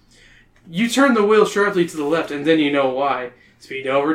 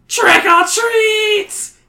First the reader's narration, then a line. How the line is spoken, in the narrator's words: He screeches